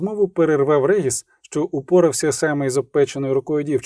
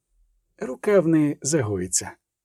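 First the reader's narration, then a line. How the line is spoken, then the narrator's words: Quiet, vampire. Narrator (Ukrainian): сказав тихо вампір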